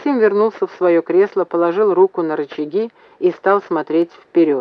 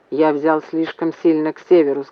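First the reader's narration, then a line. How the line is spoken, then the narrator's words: Plain. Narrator (Russian): сказал Максим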